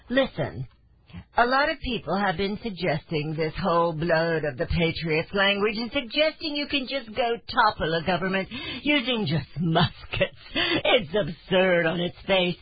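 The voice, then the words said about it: Deliberately bad snooty British accent. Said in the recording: “I do a terrible man accent, a terrible uh, uh, uh, British accent. ... we're going to do our very best to be snooty”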